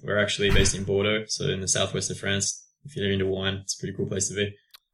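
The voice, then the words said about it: Non-French accent. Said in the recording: “in spite of my accent”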